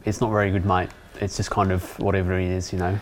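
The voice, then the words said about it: Put-on Australian accent. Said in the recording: “my Australians offended Australians in the past ... How long can I keep my Australian accent up for?”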